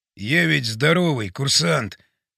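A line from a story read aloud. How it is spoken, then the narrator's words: Whispered. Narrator (Russian): шептал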